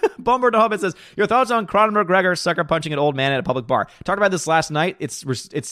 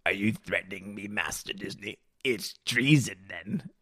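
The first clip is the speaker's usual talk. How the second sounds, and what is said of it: Imitates a sinister emperor character voice. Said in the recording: “in the Emperor's voice ... I did that voice”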